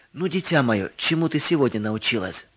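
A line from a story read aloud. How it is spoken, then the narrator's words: Plain question. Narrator (Russian): спросил отец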